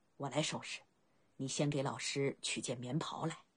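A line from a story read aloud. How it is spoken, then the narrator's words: Low voice. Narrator (Chinese): 白起对青梅低声道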